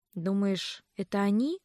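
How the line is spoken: Quiet question. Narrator (Russian): тихо спросила я через некоторое время

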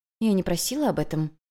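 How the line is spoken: Gentle reminder. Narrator (Russian): мягко напомнила Юнь-Юнь

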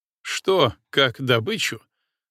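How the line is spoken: Mocking. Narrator (Russian): насмешливо уточнил Иванов

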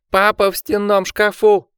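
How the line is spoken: Shouted. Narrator (Russian): крикнул Ричард

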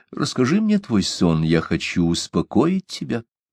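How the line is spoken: Tender. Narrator (Russian): нежно сказал Генрих

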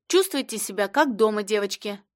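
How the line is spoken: Plain, host. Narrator (Russian): сказал хозяин квартиры

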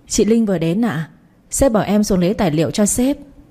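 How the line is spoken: Smiling woman. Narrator (Vietnamese): Cô ấy mỉm cười bảo

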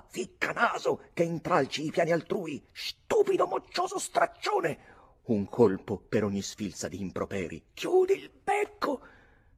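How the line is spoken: Yelling. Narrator (Italian): urlava

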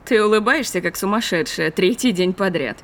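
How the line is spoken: Grumbling. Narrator (Russian): проворчала Имаджен

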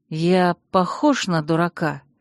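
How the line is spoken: Through gritted teeth. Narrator (Russian): процедил Виктор сквозь зубы

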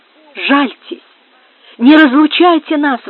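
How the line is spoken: Exclaiming. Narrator (Russian): воскликнула она

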